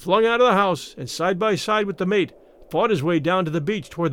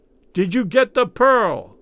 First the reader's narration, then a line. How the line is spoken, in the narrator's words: he yelled in Raoul's ear